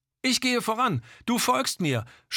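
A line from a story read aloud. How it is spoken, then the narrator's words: Shouting against storm. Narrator (German): schrie gegen den Sturm an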